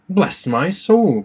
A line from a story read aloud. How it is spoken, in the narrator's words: cried the doctor